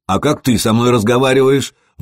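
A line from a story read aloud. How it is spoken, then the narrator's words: Shouted out. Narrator (Russian): выкрикнул Сергей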